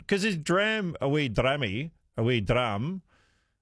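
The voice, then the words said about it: Vague attempt at Scottish accent. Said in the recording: “that's my vague attempt of doing a Scottish accent.”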